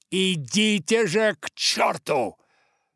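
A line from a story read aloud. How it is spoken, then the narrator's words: Fierce growl. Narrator (Russian): Томми свирепо прорычал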